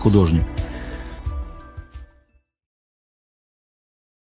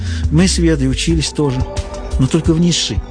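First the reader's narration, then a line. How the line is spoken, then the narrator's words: Sighing. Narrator (Russian): вздохнула Эвда Наль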